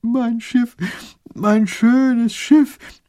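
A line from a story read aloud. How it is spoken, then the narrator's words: Wailing child. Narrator (German): jammert der kleine Großherzog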